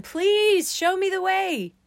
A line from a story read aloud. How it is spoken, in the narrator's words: yelled into the wind again